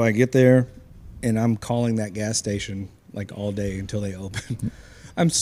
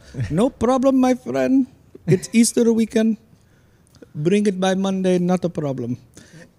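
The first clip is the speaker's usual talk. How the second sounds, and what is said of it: Put-on Indian accent. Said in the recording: “I'm going to do an Indian accent ... That was a really good accent.”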